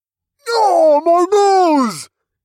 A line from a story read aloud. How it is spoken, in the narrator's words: He said through a nasally wail